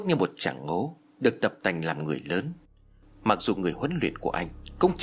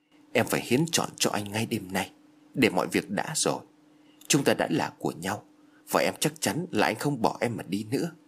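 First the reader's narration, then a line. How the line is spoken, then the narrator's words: Whisper. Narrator (Vietnamese): nói khẽ bên tai của Phước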